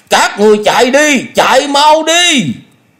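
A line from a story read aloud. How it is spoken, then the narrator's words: Loud shout. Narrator (Vietnamese): miệng hét lớn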